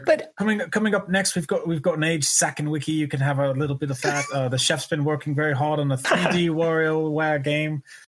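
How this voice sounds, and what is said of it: Fancy restaurant waiter voice. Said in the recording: “he reminded me of like a waiter at a really fancy restaurant ... Why do fancy waiters always have the same accent?”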